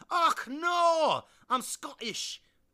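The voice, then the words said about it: Poor put-on Scottish accent. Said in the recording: “a great Scottish accent, much better than the one I'm doing right now ... Wow, that was awful.”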